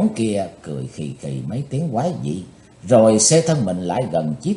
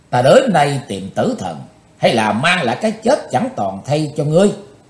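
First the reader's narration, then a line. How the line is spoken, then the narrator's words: Loud shout. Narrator (Vietnamese): Chí tôn quát to lên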